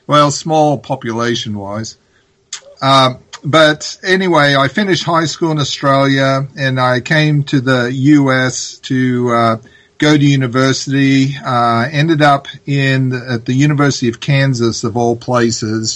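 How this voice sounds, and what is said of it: Australian accent, partly Americanized. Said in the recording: “this is not a typical Hawaiian accent. I'm originally from Australia, although my accent has been Americanized over the decades.”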